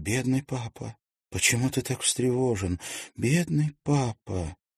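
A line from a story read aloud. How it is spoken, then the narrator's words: Faint smiling whisper. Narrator (Russian): Губы ее тронула слабая улыбка, а потом она прошептала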